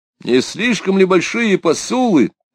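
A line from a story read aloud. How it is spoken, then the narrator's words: Shouted. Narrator (Russian): крикнул Робеспьер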